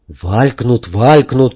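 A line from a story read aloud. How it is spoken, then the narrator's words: Angry. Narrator (Russian): сердито сказал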